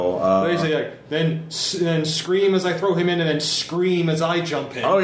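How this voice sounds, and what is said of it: Usual voice. Nothing is said of it.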